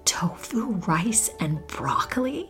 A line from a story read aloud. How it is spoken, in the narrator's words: He whispered to me